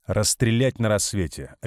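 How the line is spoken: Sharp, cutting off. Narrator (Russian): резко оборвал Марков

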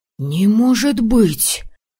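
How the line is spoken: Young men breathing in unison. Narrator (Russian): Слаженно выдохнули парни

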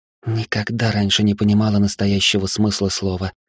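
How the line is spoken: Quiet. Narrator (Russian): тихо произнесла

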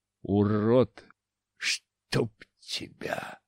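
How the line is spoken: Wheezing. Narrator (Russian): захрипел снова воскрешенный Дашко

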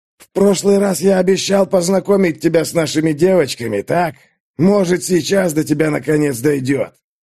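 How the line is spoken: Mock sigh, shouted. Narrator (Russian): Гвоздь наигранно вздохнул и крикнул через плечо

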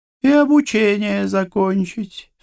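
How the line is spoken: Matching singsong tone. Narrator (Russian): в тон ему нараспев произнесла Рози

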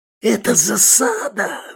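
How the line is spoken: Frightened scream. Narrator (Russian): завопил Манюта, глаза по 5 копеек

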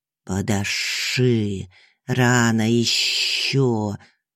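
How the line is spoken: Hissing snake. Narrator (Russian): шипела змея

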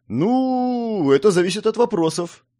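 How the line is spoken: Uncertain, hesitant. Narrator (Russian): неуверенно произнес он

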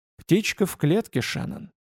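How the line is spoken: Quiet speech. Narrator (Russian): тихо проговорил он

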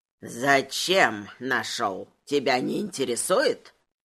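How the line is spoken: Grumbling. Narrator (Russian): проворчал он

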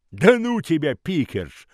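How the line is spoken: Scoffing snort. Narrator (Russian): хмыкнул Хамфри

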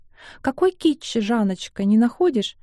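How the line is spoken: Cheerful question. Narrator (Russian): радостно спрашивает Глебсон

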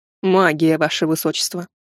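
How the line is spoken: Calm. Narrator (Russian): спокойно ответил незнакомец

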